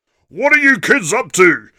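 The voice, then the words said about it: Deep booming voice. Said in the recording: “a deep voice boomed up from the bottom of the stairs”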